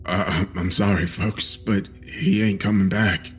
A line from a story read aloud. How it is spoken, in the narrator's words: he said shakily